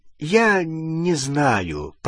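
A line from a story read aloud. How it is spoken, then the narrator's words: Mumbling. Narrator (Russian): промямлил Рон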